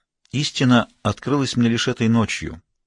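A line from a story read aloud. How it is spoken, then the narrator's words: Calm confession. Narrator (Russian): признался визирь спокойно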